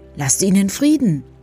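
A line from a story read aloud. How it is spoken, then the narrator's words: Calling out. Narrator (German): rief Amerle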